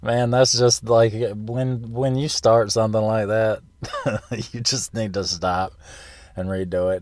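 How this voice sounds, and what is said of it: Congested, sick-sounding voice. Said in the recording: “I have a cold. I came down with a cold. And so I'm kind of fighting a cough right now.”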